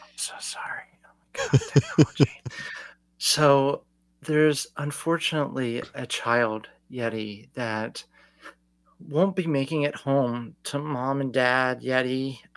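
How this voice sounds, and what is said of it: Lowered voice, close to mic. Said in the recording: “talk in a lower voice ... You're talking in a lower voice, but you're closer to the mic, so it's actually a louder. You sound louder.”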